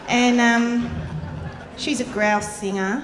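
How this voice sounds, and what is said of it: Broad Australian accent. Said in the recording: “a broad Australian accent... making me speak like this”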